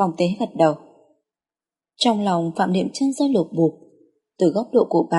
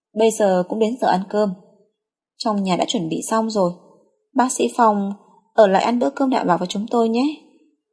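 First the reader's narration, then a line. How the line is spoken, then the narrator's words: Smiling. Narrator (Vietnamese): Phạm Niệm Chân mỉm cười nói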